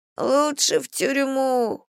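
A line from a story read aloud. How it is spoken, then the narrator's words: Whimpering. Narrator (Russian): хныкает Гошка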